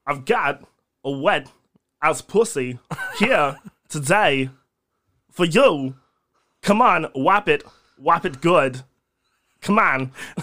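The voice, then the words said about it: Imitates another person's voice. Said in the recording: “not a bad impression”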